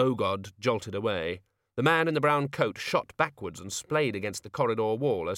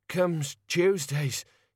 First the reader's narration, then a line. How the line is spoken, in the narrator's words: panted